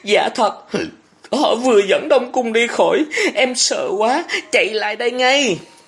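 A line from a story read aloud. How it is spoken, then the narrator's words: Trembling. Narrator (Vietnamese): Thọ Hương run run nói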